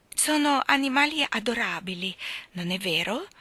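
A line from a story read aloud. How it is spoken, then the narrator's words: Fluting exclamation. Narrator (Italian): esclamò con voce flautata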